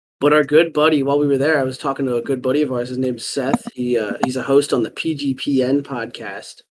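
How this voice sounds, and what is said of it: Raspy, worn-out voice. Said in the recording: “my voice was shot, and that's why it's still a little bit raspy today.”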